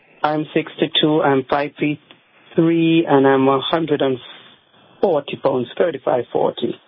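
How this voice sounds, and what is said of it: Jamaican accent. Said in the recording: “You have a nice accent. ... Jamaica.”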